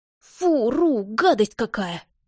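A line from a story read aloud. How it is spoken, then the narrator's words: Exclamation. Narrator (Russian): воскликнул Орион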